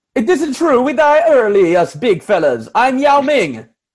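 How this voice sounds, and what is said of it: Put-on Italian accent. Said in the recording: “I can't do a Chinese accent, so I do Italian”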